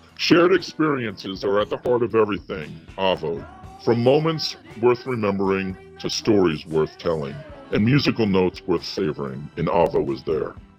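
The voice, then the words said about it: Reading in an exaggeratedly deep voice. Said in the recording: “I'm going to try to read this in my deepest voice possible ... That's the deepest you got? ... You can't go deeper than that.”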